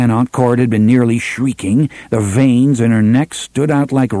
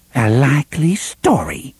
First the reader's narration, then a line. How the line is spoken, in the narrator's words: Cordelia whispered at last